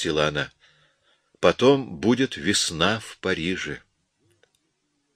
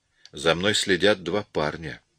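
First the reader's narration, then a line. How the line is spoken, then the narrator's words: Quiet. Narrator (Russian): тихо сказал Мартин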